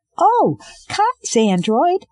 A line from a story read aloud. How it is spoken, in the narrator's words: Iko said, excitedly